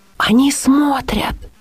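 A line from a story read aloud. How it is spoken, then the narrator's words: Whisper. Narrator (Russian): прошептала Лиля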